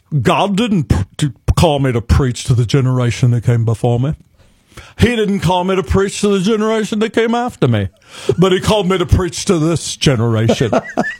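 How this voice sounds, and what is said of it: Billy Graham impression, North Carolina accent. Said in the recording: “Billy Graham famously said ... it sounds like way more important ... Some people like the accent ... I had to learn how to speak like North Carolina.”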